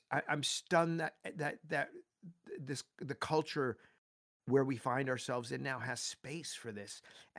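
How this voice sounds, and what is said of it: Teary, emotional voice. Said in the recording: “I'm getting teary right now”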